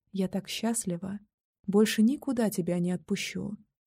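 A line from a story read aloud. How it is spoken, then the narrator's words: Whispering. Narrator (Russian): шептала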